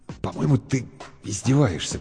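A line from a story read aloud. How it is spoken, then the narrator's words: Unsure mutter. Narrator (Russian): пробормотал Бергман неуверенно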